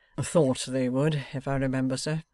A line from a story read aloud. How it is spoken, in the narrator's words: quietly remarked the secretary